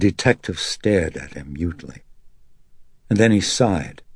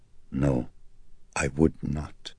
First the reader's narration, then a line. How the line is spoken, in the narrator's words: Not for a moment had Carl lost his poise, and he held it even now as he calmly answered